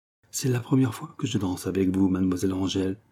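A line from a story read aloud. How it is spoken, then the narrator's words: Murmur. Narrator (French): murmura René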